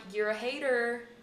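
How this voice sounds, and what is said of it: British speaker doing American accent. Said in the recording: “your British accent. I'm like, can I hear your best American accent? ... That's so good. ... It's so good. ... it's getting hard R”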